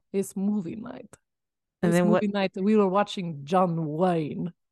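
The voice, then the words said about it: Put-on Russian accent. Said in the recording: “How would Stalin say was movie night?... That was really good... I'm so bad at accents... That was so good... your Russian accent”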